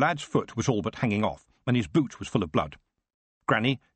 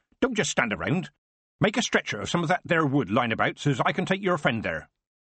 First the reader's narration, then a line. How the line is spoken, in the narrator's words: she said sharply